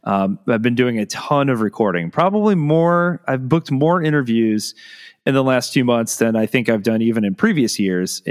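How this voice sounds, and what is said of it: Slightly hoarse voice. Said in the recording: “My voice is a little hoarse right now, and you might be able to tell.”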